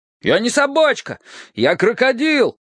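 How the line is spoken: Shouting. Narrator (Russian): закричал Гоша

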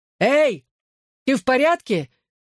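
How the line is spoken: Shout while running. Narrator (Russian): еще на бегу крикнул я

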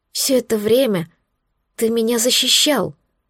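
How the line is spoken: Whisper. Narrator (Russian): прошептала я

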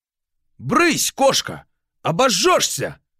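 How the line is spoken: Shouted. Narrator (Russian): крикнул портной

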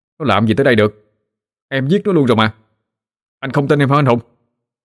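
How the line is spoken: Snappish. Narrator (Vietnamese): Tôi gắt

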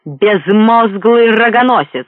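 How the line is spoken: Yelled. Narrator (Russian): заорал он

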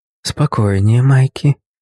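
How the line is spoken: Gentle young woman's voice. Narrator (Russian): ласково произнесла девушка

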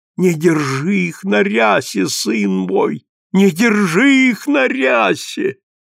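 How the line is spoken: Moan. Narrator (Russian): он простонал

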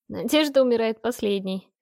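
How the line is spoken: Laughing defiantly. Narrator (Russian): рассмеялась я ему в лицо

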